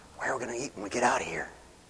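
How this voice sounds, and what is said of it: Whispered aside. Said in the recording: “whisper”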